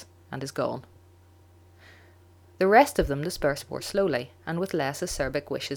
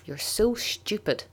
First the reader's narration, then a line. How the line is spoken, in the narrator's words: he hisses finally